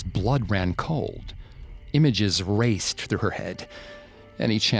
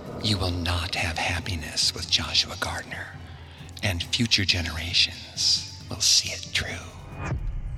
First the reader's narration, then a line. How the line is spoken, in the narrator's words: Kate whispered in her ear